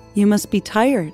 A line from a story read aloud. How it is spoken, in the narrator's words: Empress Wang said